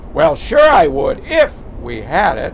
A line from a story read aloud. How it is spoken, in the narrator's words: snapped